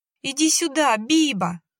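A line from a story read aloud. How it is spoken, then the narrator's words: Hysterical woman shouting. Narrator (Russian): кричала женщина истерично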